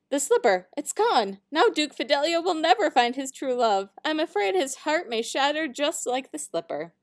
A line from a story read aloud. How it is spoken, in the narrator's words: cried the page